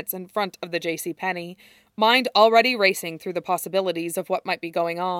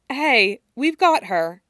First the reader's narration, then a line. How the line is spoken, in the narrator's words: Allison says, her voice calm and soothing